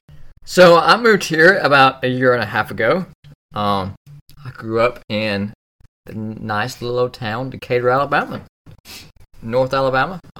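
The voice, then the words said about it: Southern US (Alabama) accent. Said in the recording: “As you can tell by the accent”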